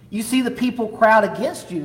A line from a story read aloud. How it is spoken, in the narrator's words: answered